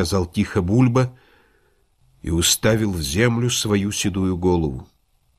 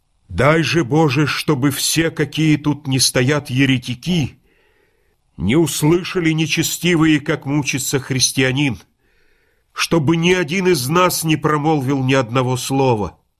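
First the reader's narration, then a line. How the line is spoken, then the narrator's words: Loud declaration. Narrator (Russian): произнес громко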